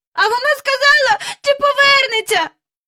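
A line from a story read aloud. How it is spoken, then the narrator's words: Shouting. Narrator (Ukrainian): закричав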